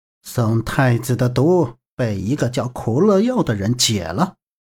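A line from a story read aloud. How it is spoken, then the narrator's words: Cold. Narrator (Chinese): 断魂冷冷开口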